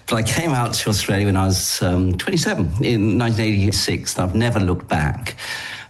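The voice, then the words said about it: English accent. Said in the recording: “I'm English by origin. And I'm very bad at languages, so I haven't really picked up any other accent.”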